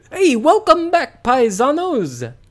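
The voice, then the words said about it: Over-the-top Italian accent. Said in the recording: “over-the-top Italian accent”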